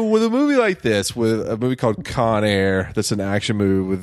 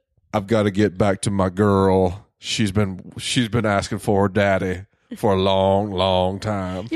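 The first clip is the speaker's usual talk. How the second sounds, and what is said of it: Imitated Southern accent and cadence. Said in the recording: “That's actually pretty good ... It's not just the accent, it's the cadence.”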